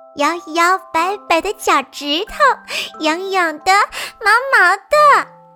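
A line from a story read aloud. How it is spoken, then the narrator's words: Little rabbits giggling. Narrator (Chinese): 他的小兔子们咯咯地笑着说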